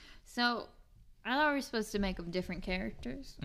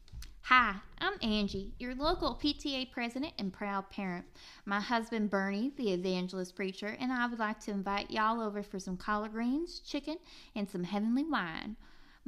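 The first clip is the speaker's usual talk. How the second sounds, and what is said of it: Put-on Southern accent. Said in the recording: “I'm going to do a southern accent”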